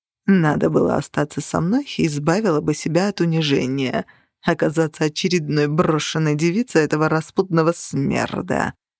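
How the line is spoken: Purring. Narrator (Russian): промурлыкал он

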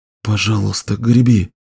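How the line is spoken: Whispered. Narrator (Russian): прошептал Беннон

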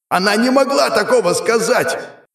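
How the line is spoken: Demon shouting. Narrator (Russian): закричал демон

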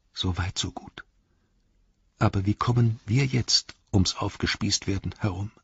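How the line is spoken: Whispering. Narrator (German): flüsterte

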